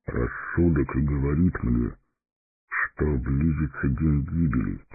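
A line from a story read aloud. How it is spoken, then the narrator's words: Quiet. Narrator (Russian): тихо молвил Фарамир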